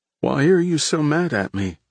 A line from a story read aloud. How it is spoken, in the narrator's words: Frank asked, his voice small and breaking